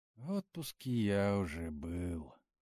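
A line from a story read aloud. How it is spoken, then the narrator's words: Dreamy sigh. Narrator (Russian): мечтательно вздохнул Леха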